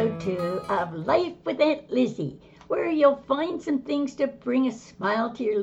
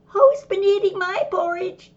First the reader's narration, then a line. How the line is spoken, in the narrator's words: he squeaks